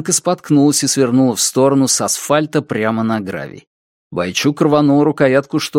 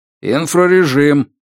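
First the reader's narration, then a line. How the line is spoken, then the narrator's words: Barked command. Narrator (Russian): рявкнул Роберт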